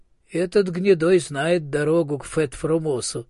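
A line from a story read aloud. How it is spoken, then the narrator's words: Laughing. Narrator (Russian): засмеялся всадник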